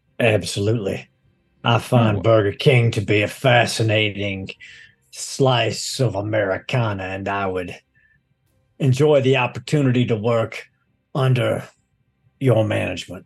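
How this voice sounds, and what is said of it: Put-on Southern West Virginia accent. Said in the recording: “That's a very interesting accent you have there. Is that Texan? ... I come from a wee bit further east than that. Out in the West Virginia hills”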